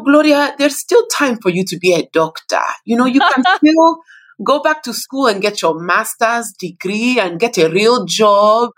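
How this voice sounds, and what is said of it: Nigerian accent imitating mother. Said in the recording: “in her Nigerian accent”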